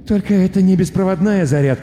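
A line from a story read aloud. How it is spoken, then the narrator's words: Muttering. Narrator (Russian): пробормотал студент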